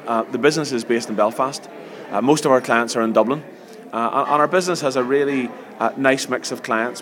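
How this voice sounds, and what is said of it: Northern Irish Antrim accent. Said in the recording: “I'm an Antrim man, as you can maybe tell from my accent.”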